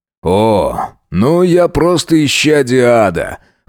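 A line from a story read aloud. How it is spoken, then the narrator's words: Smirking snort. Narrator (Russian): хмыкнул Джек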